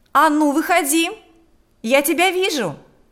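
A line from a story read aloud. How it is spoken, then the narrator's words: Shouting. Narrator (Russian): кричала она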